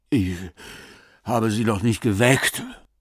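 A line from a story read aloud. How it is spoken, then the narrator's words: Panting. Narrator (German): keuchte Rabenwall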